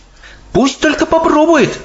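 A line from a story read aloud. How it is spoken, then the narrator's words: Exclaiming. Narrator (Russian): воскликнула Софи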